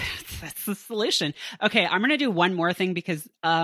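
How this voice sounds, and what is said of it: Usual voice. Nothing is said of it.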